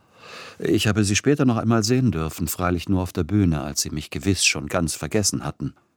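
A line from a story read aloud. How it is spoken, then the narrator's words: Plain. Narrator (German): sagte er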